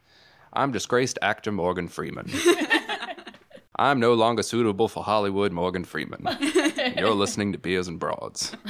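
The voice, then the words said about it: Morgan Freeman voice impression. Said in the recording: “They want to know if you could do a Morgan Freeman voice ... I'm only going to imitate Michael Ruffino's Morgan Freeman voice ... I'll imitate his imitation ... That's actually pretty good.”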